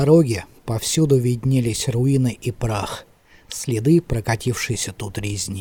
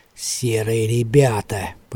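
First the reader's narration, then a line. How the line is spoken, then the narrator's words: Grumbling. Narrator (Russian): проворчал Талли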